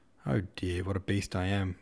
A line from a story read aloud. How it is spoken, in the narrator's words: muttered Rostov